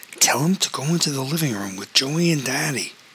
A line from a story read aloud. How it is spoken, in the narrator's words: whispered